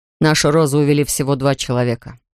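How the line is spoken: Plain. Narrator (Russian): сказал Мартин

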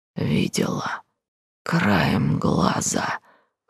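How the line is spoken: Hoarse wheeze. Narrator (Russian): хрипит

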